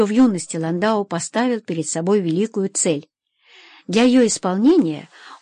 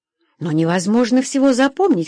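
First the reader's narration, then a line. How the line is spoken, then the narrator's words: Exclaiming. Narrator (Russian): воскликнула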